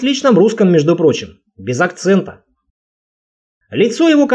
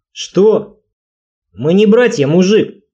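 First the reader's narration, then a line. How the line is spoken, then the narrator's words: Solid deep bass reply. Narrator (Russian): солидным баском ответил парняга в черной майке, скорее всего, вожак стаи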